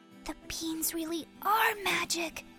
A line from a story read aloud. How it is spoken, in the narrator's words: whispered Jack